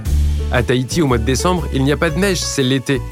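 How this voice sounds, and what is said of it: Sing-song Polynesian French accent. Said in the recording (French): “vous l'aurez deviné à mon accent chantant”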